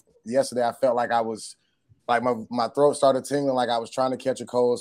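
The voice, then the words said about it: Hoarse voice. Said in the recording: “my voice is so hoarse ... it took my voice ... it got me a little hoarse today”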